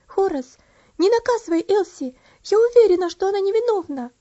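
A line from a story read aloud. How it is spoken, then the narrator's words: Agitated exclamation. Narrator (Russian): она взволнованно воскликнула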